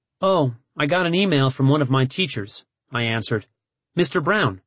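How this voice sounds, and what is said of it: Usual voice. Nothing is said of it.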